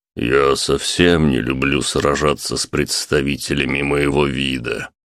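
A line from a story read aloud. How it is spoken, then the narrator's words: Gloomy remark. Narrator (Russian): мрачно заметил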